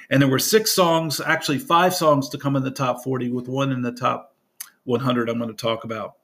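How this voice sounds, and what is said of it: Hoarse, froggy voice. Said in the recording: “I apologize for my voice. It's kind of froggy.”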